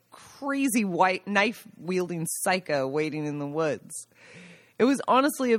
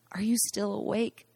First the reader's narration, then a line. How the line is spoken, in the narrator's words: I whispered into the icy air